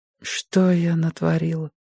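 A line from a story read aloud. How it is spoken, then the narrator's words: Sad whisper. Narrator (Russian): прошептала она печально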